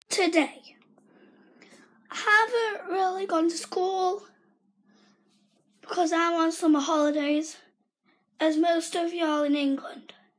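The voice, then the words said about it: Strained, weak, failing voice. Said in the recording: “my voice is kind of not working, so I apologize for how I sound”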